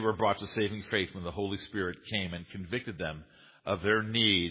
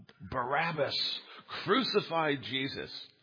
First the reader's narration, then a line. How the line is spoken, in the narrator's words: Many of these people who cried in the crowd